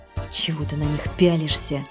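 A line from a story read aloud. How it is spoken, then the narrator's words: Whisper. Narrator (Russian): прошептала Людмила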